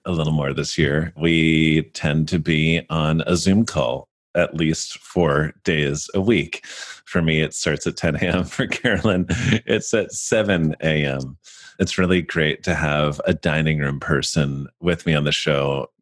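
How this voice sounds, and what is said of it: Profound radio announcer voice. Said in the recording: “my most profound radio voice ... You have very good radio voice.”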